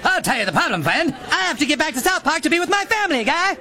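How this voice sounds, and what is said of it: Mock Canadian accent, South Park style. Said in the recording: “we speak like they spoke mocking Canadians on South Park ... I don't speak Canadian”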